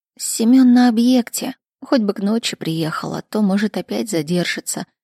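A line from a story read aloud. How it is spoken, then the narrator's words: Sad sigh. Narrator (Russian): грустно вздохнула Натали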